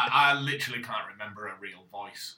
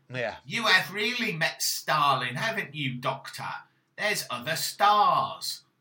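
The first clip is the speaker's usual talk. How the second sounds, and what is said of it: Put-on Cockney accent. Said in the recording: “you're doing a Cockney accent for her”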